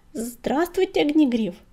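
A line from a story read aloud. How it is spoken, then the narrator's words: Timid babble. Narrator (Russian): пролепетал он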